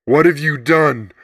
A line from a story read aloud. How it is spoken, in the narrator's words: Mom cried